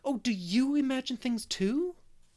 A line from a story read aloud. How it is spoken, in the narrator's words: But Anne of the Shining Eyes exclaimed joyfully